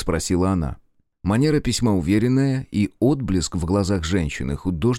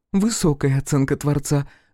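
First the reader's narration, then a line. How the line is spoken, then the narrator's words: Laughing. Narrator (Russian): засмеялась Алекс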